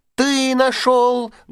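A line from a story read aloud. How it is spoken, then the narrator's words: Loud shouting, little mice. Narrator (Russian): громко закричали мышата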